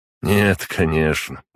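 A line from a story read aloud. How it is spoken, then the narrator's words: Sad chuckle. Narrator (Russian): грустно усмехнулся Тагай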